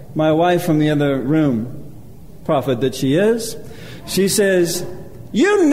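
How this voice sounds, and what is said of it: Usual voice. Nothing is said of it.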